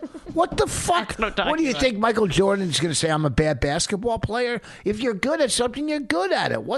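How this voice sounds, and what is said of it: Usual voice. Nothing is said of it.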